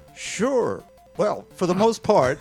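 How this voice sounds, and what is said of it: Game show host voice. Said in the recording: “talking like a game show host? You can just talk like you.”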